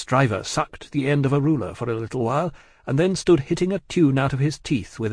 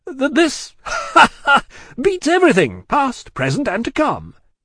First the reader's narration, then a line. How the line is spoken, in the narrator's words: laughed Stryver with a vexed laugh